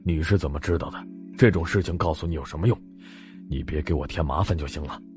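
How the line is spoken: Flat, indifferent. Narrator (Chinese): 林朗成淡淡道

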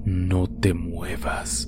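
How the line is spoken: Male whisper in ear. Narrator (Spanish): una voz masculina que susurró a mi oído

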